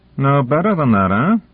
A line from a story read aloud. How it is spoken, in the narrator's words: Dezhnev's laugh boomed out